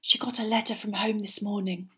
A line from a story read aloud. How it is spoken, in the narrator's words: Parvati whispered